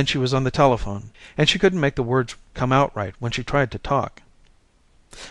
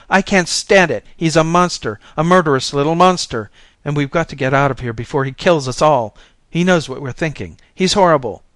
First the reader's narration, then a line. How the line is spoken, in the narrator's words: She was screaming for Daddy and saying